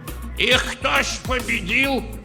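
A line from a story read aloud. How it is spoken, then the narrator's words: Old man shouting from crowd. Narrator (Russian): крикнул из рядов дед Тарас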